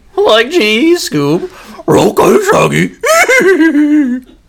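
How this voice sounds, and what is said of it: Impression of Shaggy cartoon voice. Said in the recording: “Your impression of it's the same every time in that order. It's amazing.”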